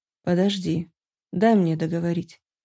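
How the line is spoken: Stern yet tender dragon. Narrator (Russian): строго и одновременно ласково попросил дракон

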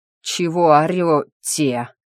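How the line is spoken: Breathless gasp. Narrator (Russian): выдохнул он, пытаясь отдышаться

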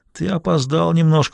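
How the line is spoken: Moaning. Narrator (Russian): простонал он

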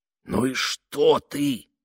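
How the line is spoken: Inner voice hissing. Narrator (Russian): прошипел внутренний голос

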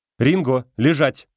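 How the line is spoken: Sharp command. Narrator (Russian): резко говорит она

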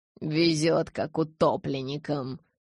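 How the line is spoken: Grumbled. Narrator (Russian): пробурчал Стефан

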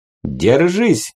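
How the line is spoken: Barked shout. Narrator (Russian): гаркнул Сименс

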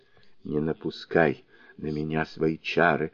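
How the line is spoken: Barely audible whisper. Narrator (Russian): еле слышным шепотом произнесла она

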